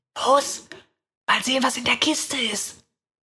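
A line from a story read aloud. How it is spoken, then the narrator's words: Whispered. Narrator (German): flüstert meine Schwester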